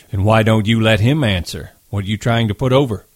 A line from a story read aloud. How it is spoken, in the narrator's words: George broke in loudly